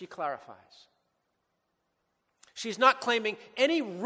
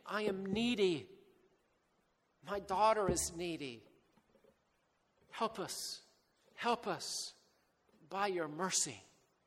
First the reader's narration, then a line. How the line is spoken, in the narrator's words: She's just pleading